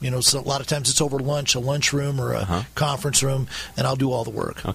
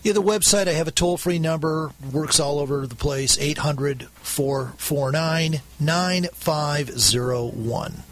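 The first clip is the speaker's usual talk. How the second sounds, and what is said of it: Polished radio announcer voice. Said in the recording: “you can hear that radio voice coming out”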